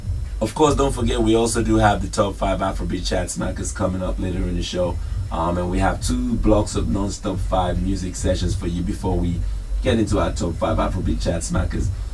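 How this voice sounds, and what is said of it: Sick, under-the-weather voice. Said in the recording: “As you can tell from my voice, I'm a little bit under the weather this week.”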